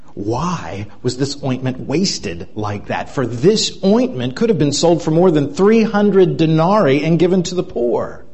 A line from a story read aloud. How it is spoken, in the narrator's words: some who said to themselves indignantly